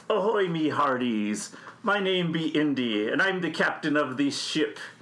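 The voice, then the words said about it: Pirate character voice. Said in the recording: “Talk Like a Pirate”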